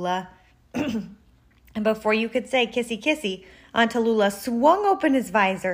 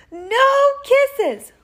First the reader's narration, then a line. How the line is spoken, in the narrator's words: wailed Bernard, bursting into tears